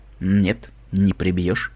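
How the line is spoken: Calm. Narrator (Russian): сказал Красный Глаз спокойно

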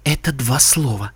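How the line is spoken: Whisper. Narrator (Russian): шепнула Эппл Блум

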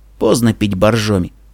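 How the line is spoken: Snort. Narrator (Russian): фыркнул Денис

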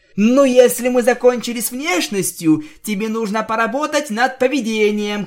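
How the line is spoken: Shouting. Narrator (Russian): крикнула я

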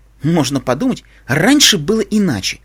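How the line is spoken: Snapped back. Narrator (Russian): огрызнулась Али

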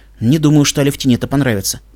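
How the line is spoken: Gruff mutter. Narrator (Russian): буркнул я

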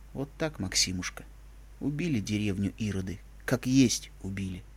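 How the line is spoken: Quiet tearful old man. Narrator (Russian): дед Кузьма, старый друг отца, опухшее от слез лицо и тихо сказал

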